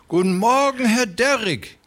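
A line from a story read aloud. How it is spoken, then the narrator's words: Fat man calling. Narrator (German): rief der Dicke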